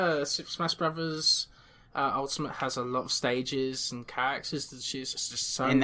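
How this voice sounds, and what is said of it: Usual voice. Nothing is said of it.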